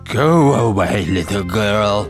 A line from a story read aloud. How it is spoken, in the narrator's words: said Saint Maur, as we will now call him, in a terrible voice